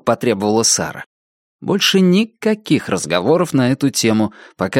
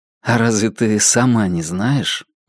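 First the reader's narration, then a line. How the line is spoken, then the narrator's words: Soft question. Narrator (Russian): мягко спросил он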